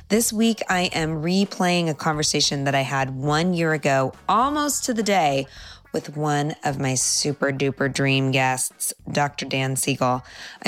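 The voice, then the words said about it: Congested voice, getting over a cold. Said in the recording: “as you may be able to hear in my voice, I am getting over a summer cold.”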